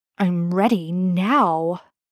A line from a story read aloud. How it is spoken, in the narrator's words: Ben growls